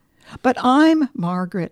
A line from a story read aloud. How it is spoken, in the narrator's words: I gasped